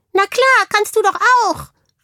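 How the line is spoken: Hamster calls from backpack. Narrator (German): rief der Hamster aus dem Ranzen heraus

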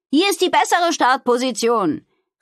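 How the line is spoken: Calling out. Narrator (German): rief sie den anderen zu

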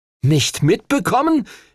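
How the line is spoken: Indignant shout. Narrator (German): rief Henry empört

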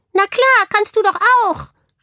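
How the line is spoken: Muffled call from schoolbag. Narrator (German): rief der Hamster aus dem Ranzen heraus

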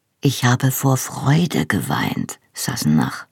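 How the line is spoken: Quiet. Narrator (German): sagte leise

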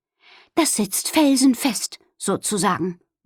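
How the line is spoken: Contented murmur. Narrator (German): murmelte sie zufrieden

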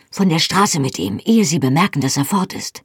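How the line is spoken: Whispered. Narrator (German): flüsterte

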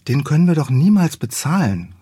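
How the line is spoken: Sighing. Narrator (German): seufzte Felice

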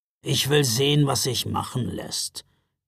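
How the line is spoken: Growled. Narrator (German): knurrte Knecht Ruprecht

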